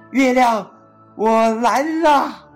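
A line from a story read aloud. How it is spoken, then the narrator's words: Loud shout. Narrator (Chinese): 提莫龙……大声喊道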